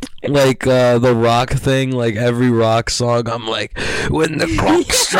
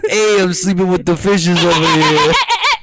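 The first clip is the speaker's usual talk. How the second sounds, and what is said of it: Put-on Italian accent. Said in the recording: “You're just doing like random Italian accents constantly.”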